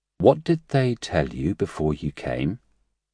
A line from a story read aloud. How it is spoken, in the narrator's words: said as calmly as he could